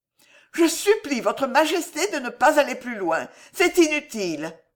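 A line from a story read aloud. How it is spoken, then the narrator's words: Exclaimed. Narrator (French): s'écria Alice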